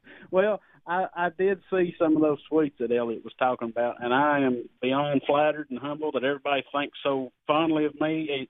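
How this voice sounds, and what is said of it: North Philadelphia accent. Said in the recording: “some cat in North Philly with this accent”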